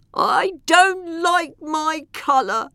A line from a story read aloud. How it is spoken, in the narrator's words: the elephant moaned